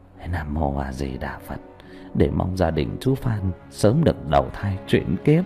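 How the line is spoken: Muttered prayer. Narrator (Vietnamese): mồm lẩm bẩm

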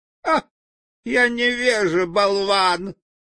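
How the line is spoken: Shout. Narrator (Russian): закричал Страшила

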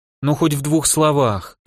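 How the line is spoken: Pleading. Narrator (Russian): взмолилась Маша

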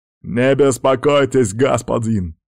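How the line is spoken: Shouting. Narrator (Russian): крикнул Казбек

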